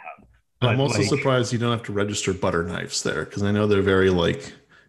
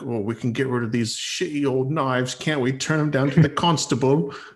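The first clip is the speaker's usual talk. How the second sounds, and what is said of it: Flawless put-on accent. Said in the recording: “flawless accent”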